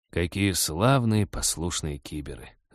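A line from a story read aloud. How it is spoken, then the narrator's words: Bitter mutter. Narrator (Russian): с горечью пробормотал Вадим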